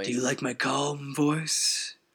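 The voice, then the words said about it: Creepy voice. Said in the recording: “creepy voice”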